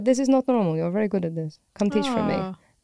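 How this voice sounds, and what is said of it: Deliberately bad Italian accent. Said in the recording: “a really terrible Italian accent ... a pretty terrible Italian accent”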